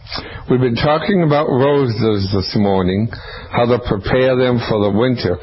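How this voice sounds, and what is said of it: Impaired, not-yet-normal voice. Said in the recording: “my voice is not quite there. It's getting better. It'll be a few weeks yet”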